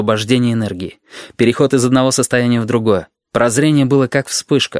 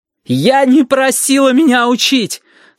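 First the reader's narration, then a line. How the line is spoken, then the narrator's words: Shouting. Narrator (Russian): Сашка тоже кричала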